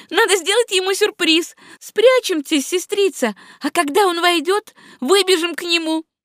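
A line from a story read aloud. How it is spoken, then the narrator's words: Playful girlish exclamation. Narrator (Russian): с шаловливостью школьницы воскликнула Мари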